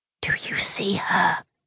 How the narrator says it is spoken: I whispered

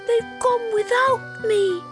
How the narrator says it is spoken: he cried

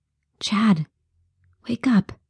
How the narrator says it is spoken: whispered

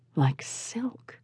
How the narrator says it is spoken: said softly

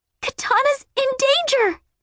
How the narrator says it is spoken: Batgirl gasped

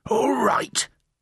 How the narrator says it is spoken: Flabsweat wheezed

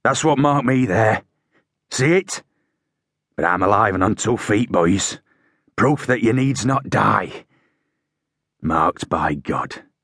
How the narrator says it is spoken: he finished, his voice gruff with emotion

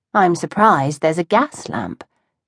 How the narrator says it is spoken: murmured

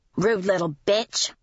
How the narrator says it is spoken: the woman mutter to her male companion

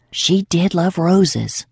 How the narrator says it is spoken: she whispered back

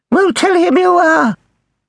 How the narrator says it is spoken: shouted

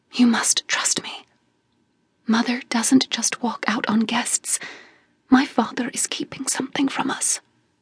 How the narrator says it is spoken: I whispered

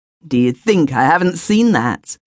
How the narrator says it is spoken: he snarled

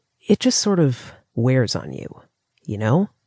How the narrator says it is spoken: asked wearily

